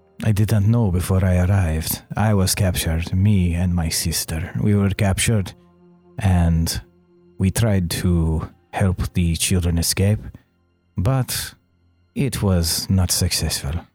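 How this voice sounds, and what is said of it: Speaks with a foreign accent. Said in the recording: “your accent”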